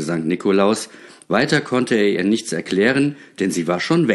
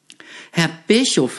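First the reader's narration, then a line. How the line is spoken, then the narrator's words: Stammering woman. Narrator (German): sagte sie stotternd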